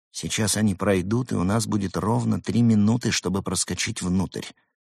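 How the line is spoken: Quiet. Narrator (Russian): тихо сказал Денис

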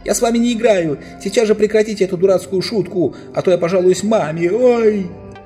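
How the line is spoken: Shouting together. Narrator (Russian): Эдмунд и Люси уже привыкли ко всяким приключениям, они вместе с Юстасом закричали

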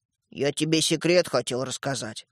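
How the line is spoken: Gruff mutter. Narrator (Russian): буркнул Светлик

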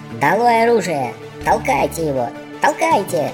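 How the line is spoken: Squeaky cry. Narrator (Russian): храброхвост пропищал

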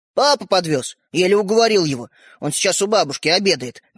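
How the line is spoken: Hurried speech. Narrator (Russian): торопливо заговорил брат

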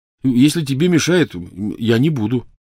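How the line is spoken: Hurried reassurance. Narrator (Russian): торопливо заверил он

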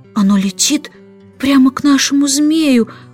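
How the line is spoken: Excited whisper. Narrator (Russian): взволнованно прошептала Джейн

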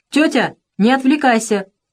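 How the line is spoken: Shouted. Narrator (Russian): крикнул гном

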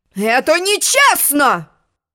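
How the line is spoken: Sudden unicorn roar. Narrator (Russian): взревел вдруг единорог

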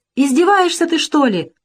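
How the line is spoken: Old woman exclaiming. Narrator (Russian): воскликнула бабушка

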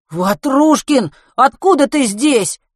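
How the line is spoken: Shocked shout. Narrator (Russian): потрясенно закричал Матвей

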